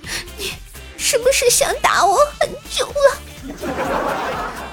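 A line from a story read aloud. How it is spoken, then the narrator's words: Sobbing tearful question. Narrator (Chinese): 那个女的……哭了，抽泣着问道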